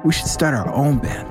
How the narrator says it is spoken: Tommy said

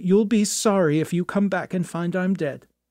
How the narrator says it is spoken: she cried

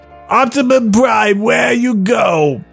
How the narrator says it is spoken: Edison yell

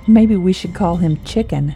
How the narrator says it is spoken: Jade laughed

